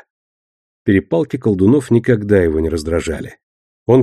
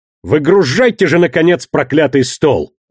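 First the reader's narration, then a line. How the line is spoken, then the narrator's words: Barked shout. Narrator (Russian): гаркнул Эльма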